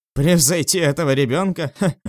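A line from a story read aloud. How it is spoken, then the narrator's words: Confident scornful snort. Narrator (Russian): Фыркнул Тао Юньсяо без сомнений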